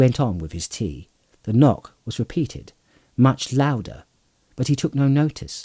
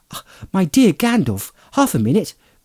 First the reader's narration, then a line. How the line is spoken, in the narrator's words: cried Frodo